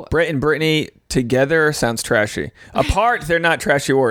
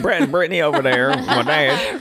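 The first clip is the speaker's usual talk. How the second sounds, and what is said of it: Put-on Southern US accent. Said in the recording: “A southern accent, but all of a sudden we do.”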